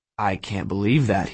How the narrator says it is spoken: he said, but his voice was shaky

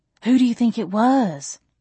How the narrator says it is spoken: Jolene asked, nervously

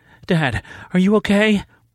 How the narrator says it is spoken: Savannah gasped

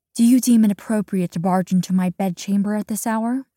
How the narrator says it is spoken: The princess speaks in a restrained tone, showing no indication of the emotion she exhibited not even a moment before

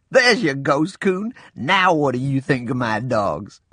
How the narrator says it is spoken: Laughing, I said

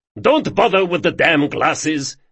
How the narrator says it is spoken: yelled Moncrane

